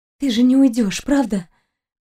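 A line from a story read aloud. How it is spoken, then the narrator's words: Hoarse and quiet. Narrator (Russian): Голос Кристины звучал хрипло и тихо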